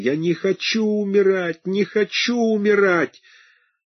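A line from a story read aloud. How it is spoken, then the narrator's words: Sobbing. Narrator (Russian): зарыдал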